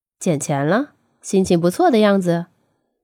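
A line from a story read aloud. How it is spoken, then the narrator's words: Amused laughing question. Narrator (Chinese): 忍不住给笑了，还问道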